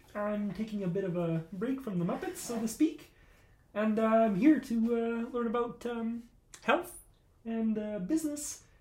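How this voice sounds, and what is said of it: Kermit the Frog character voice. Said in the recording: “you sound like a Kermit the Frog?”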